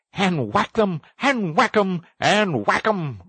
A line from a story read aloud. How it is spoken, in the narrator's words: cried the Toad in ecstasy